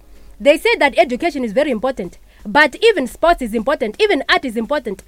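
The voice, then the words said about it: Put-on Zimbabwean accent. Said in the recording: “So now I'm gonna move on to the Zimbabwean accent.”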